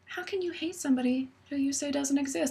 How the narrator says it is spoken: Josh very quietly says

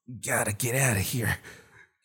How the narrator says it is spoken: he mumbled

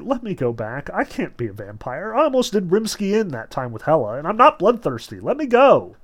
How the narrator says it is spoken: Veronica sighed, and said softly

